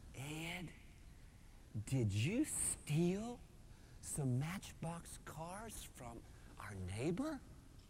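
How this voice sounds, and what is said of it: Mississippi accent, quoting mother. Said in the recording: “she said in her Mississippi accent”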